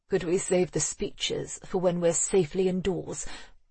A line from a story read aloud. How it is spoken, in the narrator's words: Raxel muttered